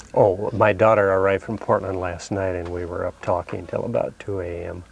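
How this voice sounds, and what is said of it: Softer, quieter voice than usual. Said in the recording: “my voice may be a little softer this morning ... your voice was going to be softer today”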